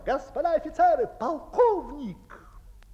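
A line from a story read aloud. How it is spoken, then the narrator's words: Shout. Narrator (Russian): кто-то закричал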